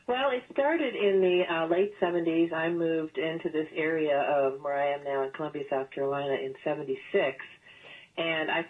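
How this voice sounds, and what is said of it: Southern American accent. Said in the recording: “a great Southern accent”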